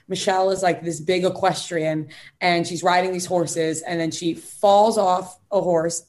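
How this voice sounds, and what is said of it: Strong Long Island accent. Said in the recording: “My Long Island accent came out hard there.”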